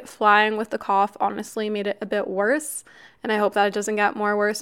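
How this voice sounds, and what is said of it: Raspy voice from illness. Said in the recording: “I still have a bit of a cough. I'm sorry if my voice still sounds raspy.”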